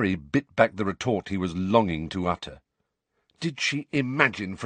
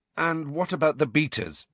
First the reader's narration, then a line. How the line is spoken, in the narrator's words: he asked, trying to keep his voice even